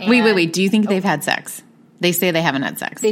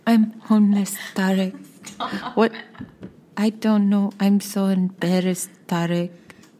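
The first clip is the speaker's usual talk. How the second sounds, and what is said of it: Soft-spoken imitation of a woman. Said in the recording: “doing a really good impression ... she's so soft-spoken”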